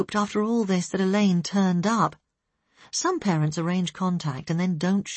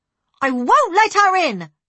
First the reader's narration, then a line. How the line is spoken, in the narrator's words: she yelled